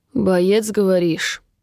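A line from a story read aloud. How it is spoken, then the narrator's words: Scoffing. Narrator (Russian): хмыкнул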